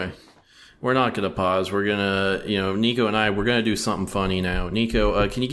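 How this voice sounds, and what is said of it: Usual voice. Nothing is said of it.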